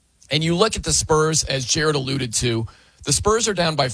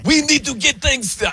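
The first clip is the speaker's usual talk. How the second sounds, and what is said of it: Failed impression, sounds Middle Eastern. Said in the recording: “I can't do a Wemby impression. That sounded more like Middle Eastern right there.”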